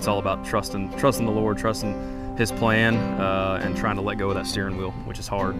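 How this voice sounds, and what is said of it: Mild East Tennessee Southern accent. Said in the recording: “you are from East Tennessee ... you have a little bit of an accent. ... When I was a kid, it was really thick. ... I just kind of went down a little bit as far as back to the middle.”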